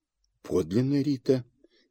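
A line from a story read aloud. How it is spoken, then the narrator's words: Quiet. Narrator (Russian): тихо сказала она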